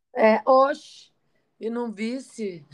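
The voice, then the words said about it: Put-on Petrolina northeastern Brazilian accent. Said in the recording (Portuguese): “agora eu mudei, não sou mais italiana, agora eu sou de Petrolina ... Tô sentindo na, voz, no teu sotaque.”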